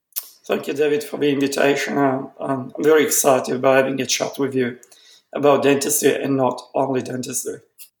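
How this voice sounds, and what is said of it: Italian accent. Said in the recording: “you can hear an accent. Um, ... is from Italy”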